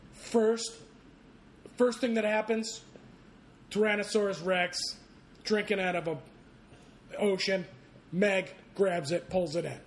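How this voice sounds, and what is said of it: Imitates another person's voice. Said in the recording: “That was a really good imitation.”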